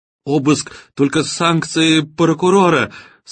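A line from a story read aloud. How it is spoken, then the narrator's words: Strained shrill squealing. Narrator (Russian): срываясь в бабьи визги, выдавил генеральный директор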